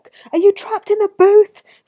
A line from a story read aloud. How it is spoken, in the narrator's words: screamed the Twitter-hating salon owner over the wailing